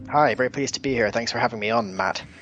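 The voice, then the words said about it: Mixed Scottish-Northern Irish-European accent. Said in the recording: “we're based in Edinburgh, Scotland, but my accent's a little bit of a mix because my dad is from Northern Ireland and my mum's from Estonia ... I have this slightly mixed accent, but it's definitely not American.”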